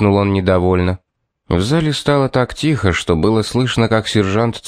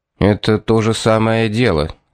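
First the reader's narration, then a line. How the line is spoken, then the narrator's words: Gloomy explanation. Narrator (Russian): мрачно пояснил Пит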